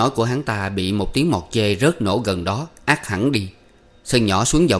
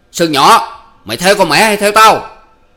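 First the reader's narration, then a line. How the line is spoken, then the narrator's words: Trembling, shouting. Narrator (Vietnamese): Chính Thuộc vẫn run người quát to lên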